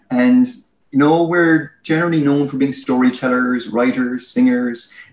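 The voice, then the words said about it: Irish accent. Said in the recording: “I'm Irish, as you can tell by my accent.”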